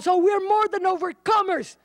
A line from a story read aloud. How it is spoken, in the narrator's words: everybody screams and shouts